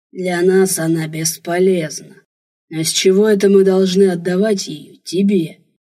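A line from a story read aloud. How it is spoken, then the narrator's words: Hoarse guttural growling. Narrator (Russian): Рычание, хриплое, гортанное, целая серия странных звуков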